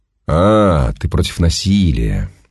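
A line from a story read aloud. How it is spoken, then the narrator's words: Drawling. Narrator (Russian): протянул солдат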